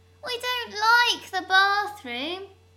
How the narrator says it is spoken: Sally whines

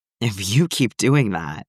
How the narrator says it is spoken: Clint groaned, already slightly out of breath

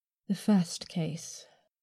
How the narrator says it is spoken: I sighed

